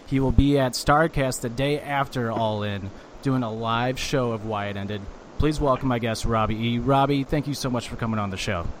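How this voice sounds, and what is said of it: Flat monotone, no enthusiasm. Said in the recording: “Zero enthusiasm with that introduction ... I got no energy from you ... I'm pretty monotone”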